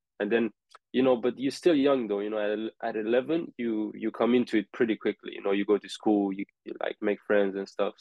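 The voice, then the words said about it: Strong Swedish accent. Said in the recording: “you've got a strong kind of Swedish accent”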